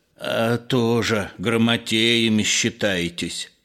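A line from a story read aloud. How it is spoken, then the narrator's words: Annoyed servant's hiss. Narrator (Russian): с досадою дворовый прошипел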